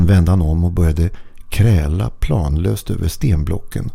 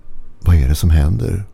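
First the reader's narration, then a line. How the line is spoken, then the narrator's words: Mumbled. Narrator (Swedish): mumlade han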